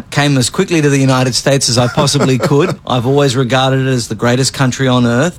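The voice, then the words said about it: Australian English accent. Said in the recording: “they hear that Australian accent”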